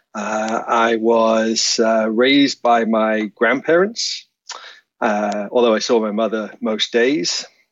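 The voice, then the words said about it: Northern English accent. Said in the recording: “your accent doesn't sound like it's Canadian ... I was born in a town called Grimsby in northeast England”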